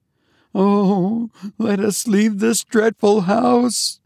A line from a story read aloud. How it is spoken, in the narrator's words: moaned Eunice